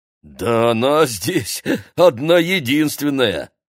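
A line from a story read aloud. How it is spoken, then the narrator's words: Short laugh. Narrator (Russian): хохотнул водитель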